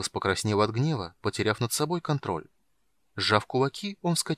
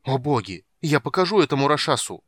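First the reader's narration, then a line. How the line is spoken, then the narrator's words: Loud exclamation. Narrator (Russian): громко воскликнул он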